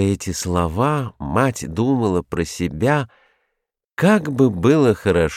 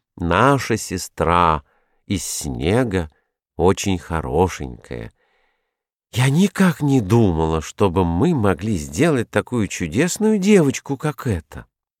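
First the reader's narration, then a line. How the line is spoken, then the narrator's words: Calm, thoughtful. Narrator (Russian): сказала фиалка спокойно и задумчиво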